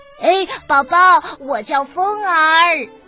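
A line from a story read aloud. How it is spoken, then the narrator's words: Calling out. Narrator (Chinese): 风儿也跟着喊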